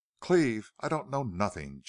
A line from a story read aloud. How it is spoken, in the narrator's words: choked out Pierce